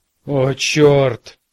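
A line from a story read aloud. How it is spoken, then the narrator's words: Groaning man. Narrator (Russian): простонал 30-летний Фрэнсис Пакок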